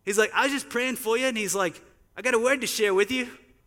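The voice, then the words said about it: Put-on Australian accent. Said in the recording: “In my best Australian voice.”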